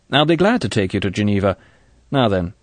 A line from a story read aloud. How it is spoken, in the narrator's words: Bond said curtly